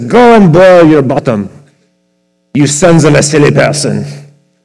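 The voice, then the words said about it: Put-on French accent. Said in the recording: “forgive me, it's a French accent... the old English French”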